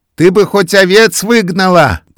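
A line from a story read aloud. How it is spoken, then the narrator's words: Old woman shouting. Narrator (Russian): крикнула ей старуха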